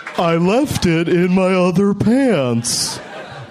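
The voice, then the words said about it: Imitates another person's voice. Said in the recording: “my Al Gore impression... That was great. You're great at this.”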